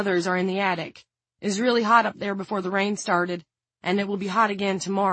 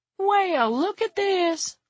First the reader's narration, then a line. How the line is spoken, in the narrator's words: Willie exclaimed